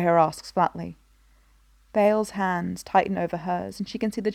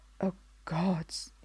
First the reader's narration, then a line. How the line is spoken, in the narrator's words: he whispers